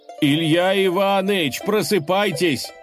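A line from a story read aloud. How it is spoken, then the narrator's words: Messenger shouting into ear. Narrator (Russian): крикнул гонец богатырю прямо в ухо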